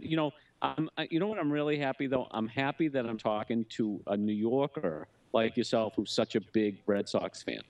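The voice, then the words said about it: Boston accent. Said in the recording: “you were close from Boston ... It's a Boston accent.”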